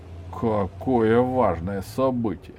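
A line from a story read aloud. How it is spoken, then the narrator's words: Mocking. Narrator (Russian): насмешливо проговорил Егорушкин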